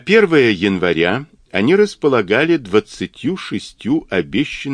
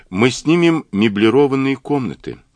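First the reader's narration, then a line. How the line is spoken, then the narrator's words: Gloomy reply. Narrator (Russian): мрачно ответила Джулия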